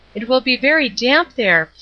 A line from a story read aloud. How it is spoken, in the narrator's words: pleaded Flossy, who did like to be accommodating